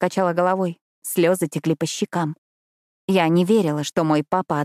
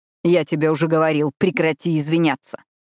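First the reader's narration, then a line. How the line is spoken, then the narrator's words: Angry bark. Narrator (Russian): рявкнул он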